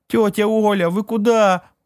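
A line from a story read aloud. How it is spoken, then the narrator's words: Wail. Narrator (Russian): взвыла Маришка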